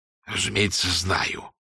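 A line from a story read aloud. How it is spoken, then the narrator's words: Strained, reluctant reply. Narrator (Russian): выдавил он из себя наконец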